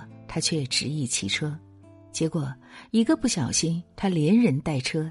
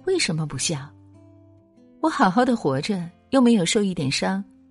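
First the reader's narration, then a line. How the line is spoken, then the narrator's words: Laughing retort question. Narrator (Chinese): 这位年轻人又扑哧一笑，反问道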